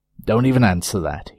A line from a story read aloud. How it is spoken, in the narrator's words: barked